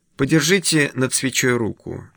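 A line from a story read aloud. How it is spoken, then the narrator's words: Soft request. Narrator (Russian): мягко просит Воглер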